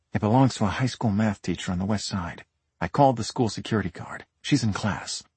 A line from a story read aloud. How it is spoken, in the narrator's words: whispered in my ear